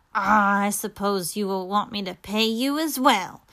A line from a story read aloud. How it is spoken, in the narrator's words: grumbled Scrooge, who was mean